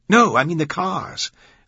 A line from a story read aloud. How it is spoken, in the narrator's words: Glick said, his voice suddenly excited